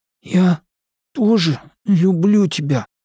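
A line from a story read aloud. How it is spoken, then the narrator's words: Wheezy rasp. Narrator (Russian): просипел Бен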